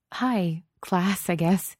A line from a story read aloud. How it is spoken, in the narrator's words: giggled and said